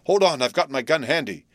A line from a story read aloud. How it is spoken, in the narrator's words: exclaimed Bluff